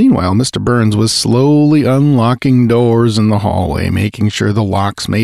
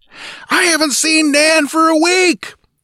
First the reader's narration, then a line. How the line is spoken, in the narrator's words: the woman bellowed in reply